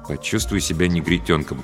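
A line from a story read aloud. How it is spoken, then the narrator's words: Mutter. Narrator (Russian): пробормотал он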